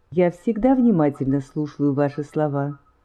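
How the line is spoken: Calm and respectful. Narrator (Russian): спокойно, хоть и совершенно почтительно

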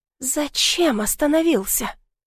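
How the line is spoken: Frightened girl's whisper. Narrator (Russian): шепнула побледневшая девушка

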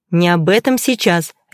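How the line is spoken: Sharp rebuke. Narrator (Russian): резко осадила Наташа

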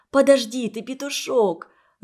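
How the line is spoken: Pleading. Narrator (Russian): взмолилась Светлана

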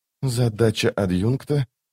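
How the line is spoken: Quiet. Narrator (Russian): тихо проговорила Лорн

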